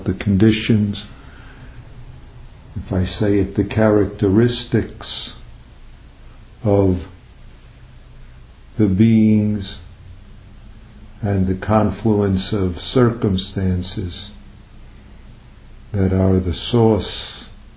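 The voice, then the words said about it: New York accent. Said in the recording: “not sauce in my New York accent”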